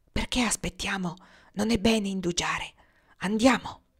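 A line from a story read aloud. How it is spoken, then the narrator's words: Whispered. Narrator (Italian): Nias gli sussurrò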